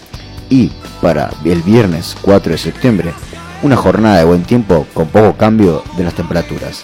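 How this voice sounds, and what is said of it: Radio announcer voice. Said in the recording (Spanish): “lo dijo con voz de locutor”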